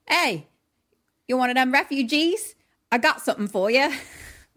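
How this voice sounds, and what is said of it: Unidentifiable put-on accent. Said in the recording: “I don't know what that accent was. ... No, it was perfect.”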